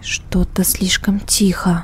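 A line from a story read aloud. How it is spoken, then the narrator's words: Whisper. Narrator (Russian): прошептала Катя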